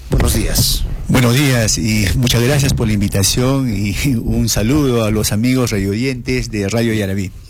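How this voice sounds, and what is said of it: Announcer-like radio voice. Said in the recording (Spanish): “tiene voz de locutor”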